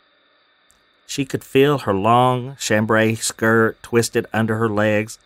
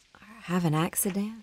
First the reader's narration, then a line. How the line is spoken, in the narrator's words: She whispered under her breath